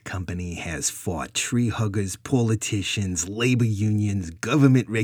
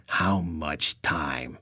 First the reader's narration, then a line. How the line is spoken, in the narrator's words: Rich growled